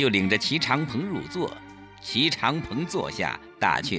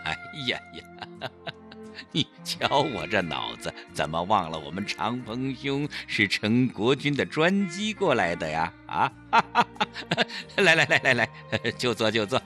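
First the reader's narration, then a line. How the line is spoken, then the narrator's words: Self-mocking laugh. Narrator (Chinese): 陈坤博自嘲地笑了笑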